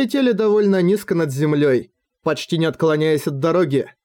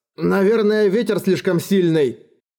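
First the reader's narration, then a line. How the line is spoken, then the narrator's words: Shouting. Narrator (Russian): крикнул Эрагон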